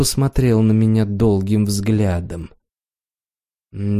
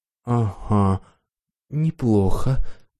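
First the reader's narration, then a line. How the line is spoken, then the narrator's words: Frightened mumble. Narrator (Russian): пробормотал испуганный парень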